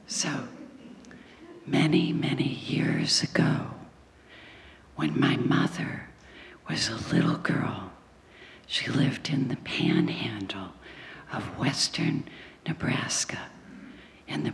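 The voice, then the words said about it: Unusual spooky-sounding voice. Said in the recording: “I don't always talk like this ... I have this kind of spooky voice”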